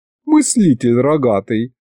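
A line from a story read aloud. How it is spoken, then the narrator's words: Giggle. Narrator (Russian): хихикнула Маша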